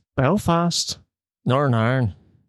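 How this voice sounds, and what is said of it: Good Northern Irish accent. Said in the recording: “That's a really good accent.”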